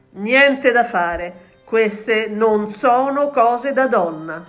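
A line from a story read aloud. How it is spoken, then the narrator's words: Impatient king exclaiming. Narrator (Italian): esclamò il re spazientito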